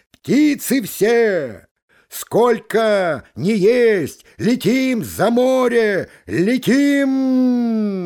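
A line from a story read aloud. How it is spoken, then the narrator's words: Gander's cry. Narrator (Russian): гусак крикнул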